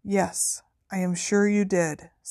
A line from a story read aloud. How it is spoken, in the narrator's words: said Dumbledore calmly